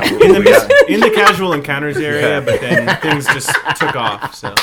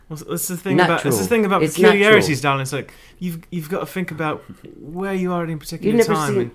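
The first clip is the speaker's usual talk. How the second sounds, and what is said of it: Put-on posh British accent. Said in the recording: “You sound like a wealthy British accent.”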